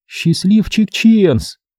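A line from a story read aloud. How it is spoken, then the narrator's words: Exclamation. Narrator (Russian): воскликнула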